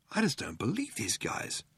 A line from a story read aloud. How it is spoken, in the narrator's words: muttered Ford